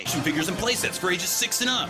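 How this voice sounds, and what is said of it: Fun radio announcer voice. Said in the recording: “it's my my fun radio voice.”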